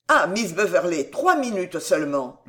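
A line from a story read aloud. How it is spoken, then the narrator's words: Plain. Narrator (French): lui dit-il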